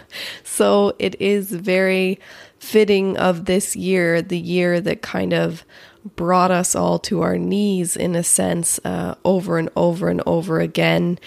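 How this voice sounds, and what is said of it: Stuffy, congested voice. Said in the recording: “my voice sounds a little bit funny, and that is because I have a cold.”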